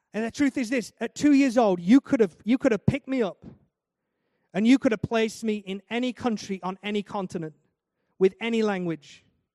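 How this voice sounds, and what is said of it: Northern English accent. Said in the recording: “I was born in the north of England. Don't know if you can tell by the accent.”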